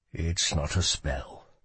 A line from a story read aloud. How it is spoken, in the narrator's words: he said softly